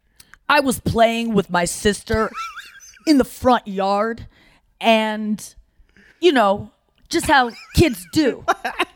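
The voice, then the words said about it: Anthony Jeselnik impression. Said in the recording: “Jesselnik. ... I don't know how to do an impression of him. ... That's pretty good.”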